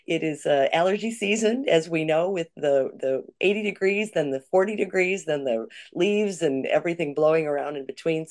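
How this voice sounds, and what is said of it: Hoarse voice. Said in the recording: “Excuse my hoarse throat, my voice.”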